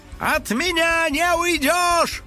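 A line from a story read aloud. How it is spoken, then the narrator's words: Shouting. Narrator (Russian): кричал домовой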